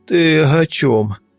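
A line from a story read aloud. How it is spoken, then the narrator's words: Toothless mumble. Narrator (Russian): прошамкал я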